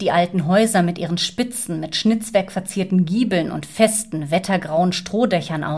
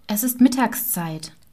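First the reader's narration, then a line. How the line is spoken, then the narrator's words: Calm. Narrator (German): sagte Gertrud ruhig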